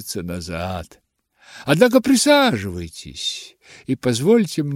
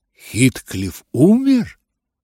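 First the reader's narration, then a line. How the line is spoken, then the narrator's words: Astonished exclamation. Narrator (Russian): воскликнул я, пораженный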